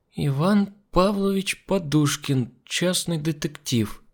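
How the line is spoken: Slow reading aloud. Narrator (Russian): медленно прочитала Олеся

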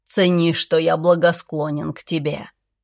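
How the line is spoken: Pleased snort. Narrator (Russian): Он довольно хмыкнул и добавил

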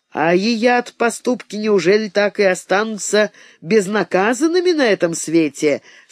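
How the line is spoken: Plain question. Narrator (Russian): спросила Тамара Абрамовна

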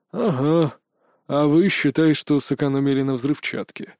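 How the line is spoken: Dry reply. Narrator (Russian): сухо ответил Степан Игнатьевич

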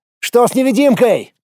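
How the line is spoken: Shouting. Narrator (Russian): крикнул я

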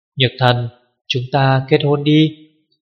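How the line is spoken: Soft, tender. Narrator (Vietnamese): Cố Duệ khẽ nói

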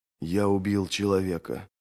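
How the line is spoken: Muttered to nobody. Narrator (Russian): пробормотал он, не обращаясь ни к кому конкретному

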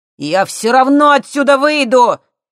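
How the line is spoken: Shouted. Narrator (Russian): крикнул Костя

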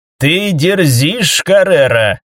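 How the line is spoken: Through clenched teeth. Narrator (Russian): процедила Мартина

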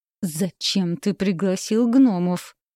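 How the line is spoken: Through gritted teeth. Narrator (Russian): процедила я сквозь зубы

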